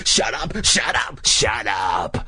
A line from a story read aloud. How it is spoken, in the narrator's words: she snarled